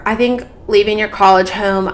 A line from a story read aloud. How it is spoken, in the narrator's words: I cried